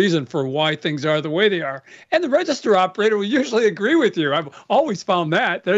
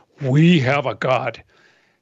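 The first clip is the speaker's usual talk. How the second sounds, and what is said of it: Deliberately deep low voice. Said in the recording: “I'm trying to do this in my deepest voice.”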